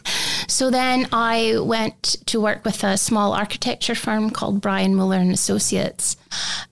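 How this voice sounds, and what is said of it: Put-on Scottish brogue. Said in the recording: “you do a great brogue ... Would you like my Scottish or English? ... Please say the next bit in Scottish.”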